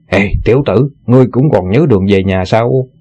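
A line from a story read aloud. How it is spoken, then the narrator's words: Angry snort. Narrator (Vietnamese): Ngụy Trung Bảo tức giận hừ một tiếng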